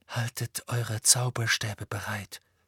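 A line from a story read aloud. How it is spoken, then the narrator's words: Said quietly. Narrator (German): sagte Harry leise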